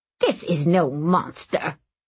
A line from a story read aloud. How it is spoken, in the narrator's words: she snapped